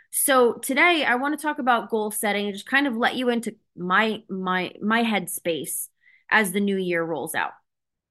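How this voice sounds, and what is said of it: Strained, fading voice. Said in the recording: “I'm already losing my voice.”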